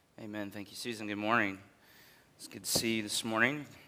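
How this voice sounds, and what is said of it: Husky, strained voice. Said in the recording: “I have my sexy voice this morning ... I try my best not to do a lot of yelling”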